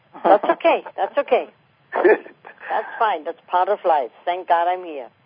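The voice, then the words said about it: German accent. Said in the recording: “What is your accent? ... German.”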